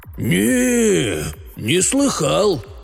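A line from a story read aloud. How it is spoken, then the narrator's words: Slow drawl after pause. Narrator (Russian): после долгой паузы протянул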